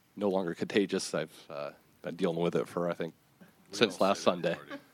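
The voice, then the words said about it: Raspy, hoarse voice. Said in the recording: “Coming off a slight cold, so pardon my raspy voice.”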